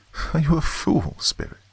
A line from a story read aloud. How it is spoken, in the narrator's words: He chuckled again